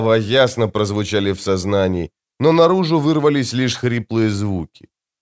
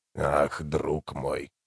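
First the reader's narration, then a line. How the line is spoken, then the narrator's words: Hoarse familiar voice. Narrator (Russian): хрипло проговорил знакомый голос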